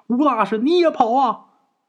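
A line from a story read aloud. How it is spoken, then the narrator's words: Shouted. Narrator (Chinese): 陈四回头也跟吴大师喊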